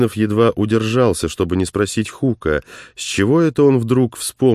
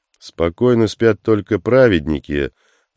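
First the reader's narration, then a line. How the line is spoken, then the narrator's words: Gloomy reply. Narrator (Russian): все так же мрачно ответил Хук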